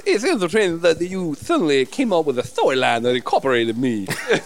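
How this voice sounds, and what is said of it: Character voice with a lisp. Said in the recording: “Why has your voice changed? ... My voice has changed ... I've applied a bit more of a lisp.”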